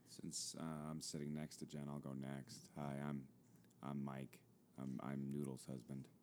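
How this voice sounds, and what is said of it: Deep smooth radio voice. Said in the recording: “With the dulcet tone... radio voice... This is my whiskey voice... It doubles as my radio voice”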